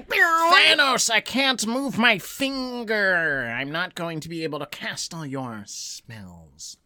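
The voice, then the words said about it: Imitated fictional character voice. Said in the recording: “That's my best Ebony Maw impression.”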